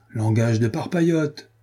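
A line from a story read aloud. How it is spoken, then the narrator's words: Crying out. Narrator (French): s'écria Renaud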